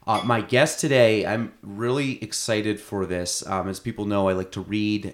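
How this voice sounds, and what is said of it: Voice sounds hoarse from illness. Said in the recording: “I'm getting over a little bit of a sickness. So my voice is actually, this is the best it sounded all day.”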